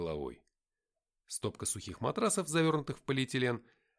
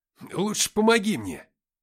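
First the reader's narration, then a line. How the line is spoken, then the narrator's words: Growling, rising anger. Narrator (Russian): прорычал я, начиная вскипать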